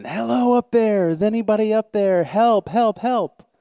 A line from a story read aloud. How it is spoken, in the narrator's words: Jack starts screaming